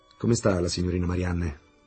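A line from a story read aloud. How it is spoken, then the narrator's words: Plain. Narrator (Italian): chiese Fridolin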